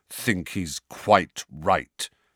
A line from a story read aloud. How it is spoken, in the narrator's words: said Sirius through clenched teeth